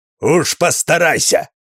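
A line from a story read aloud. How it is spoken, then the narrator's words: Bark. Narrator (Russian): рявкнул он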